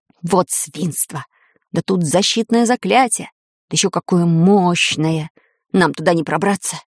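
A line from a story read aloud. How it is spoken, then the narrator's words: Disappointed hiss. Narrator (Russian): разочарованно прошипел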